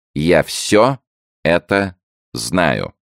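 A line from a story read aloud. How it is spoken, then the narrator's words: Slow, deliberate. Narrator (Russian): медленно проговорил король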